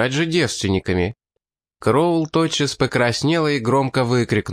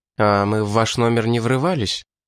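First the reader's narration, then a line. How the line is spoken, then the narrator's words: Calm reply. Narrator (Russian): спокойно ответил японец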